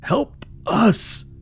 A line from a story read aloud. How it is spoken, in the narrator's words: One mouth sobbed